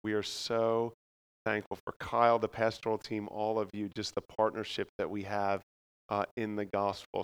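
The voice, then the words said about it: Philadelphia accent. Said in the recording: “If you pick up my accent, sorry if you can't understand me. The word water means, you would say like water... greetings from Philadelphia”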